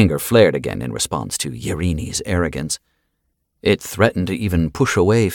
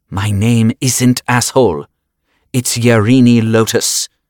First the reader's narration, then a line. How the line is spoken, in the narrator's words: the man spat back